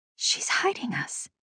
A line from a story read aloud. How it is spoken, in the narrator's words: I whispered